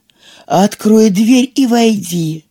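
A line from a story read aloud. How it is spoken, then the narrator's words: Wolf, feigned gentle voice. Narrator (Russian): сказал волк таким ласковым голосом, насколько он мог притвориться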